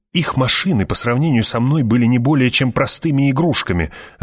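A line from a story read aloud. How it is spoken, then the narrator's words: Snapping retort. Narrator (Russian): огрызнулся Питер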